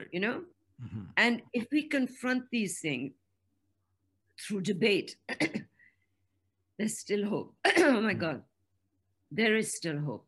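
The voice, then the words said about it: Strained, failing voice. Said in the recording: “Now that I'm losing my voice”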